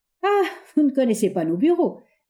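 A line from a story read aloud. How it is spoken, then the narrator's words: Laughing. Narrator (French): dit en riant Fritz à Baruch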